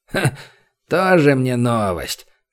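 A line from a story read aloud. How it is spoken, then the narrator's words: Scoffing snort. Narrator (Russian): хмыкнул лекарь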